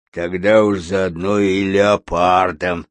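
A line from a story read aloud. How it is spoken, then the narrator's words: Grumbling bear. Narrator (Russian): проворчал медведь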